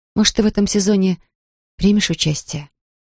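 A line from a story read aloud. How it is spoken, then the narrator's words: Gentle, affectionate question. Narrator (Russian): Ласково поинтересовалась у него Анфиса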